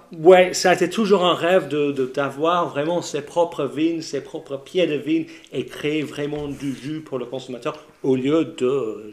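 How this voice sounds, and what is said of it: Slight London English accent in French. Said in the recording (French): “tu as un petit accent, ça vient d'où cet accent ... de Londres”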